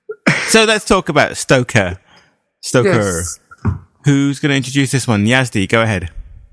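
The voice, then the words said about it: Non-American accented English. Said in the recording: “my lack of American accent”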